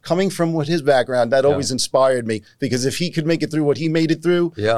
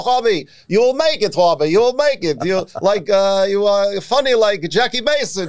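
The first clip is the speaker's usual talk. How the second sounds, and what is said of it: German Jewish accent imitation. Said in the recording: “he spoke with a German Jewish accent.”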